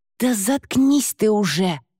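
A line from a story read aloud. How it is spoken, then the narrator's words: Hiss. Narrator (Russian): шипела Лауретта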